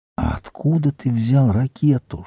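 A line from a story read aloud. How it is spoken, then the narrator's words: Whispered question. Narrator (Russian): шепотом спросил Тимоти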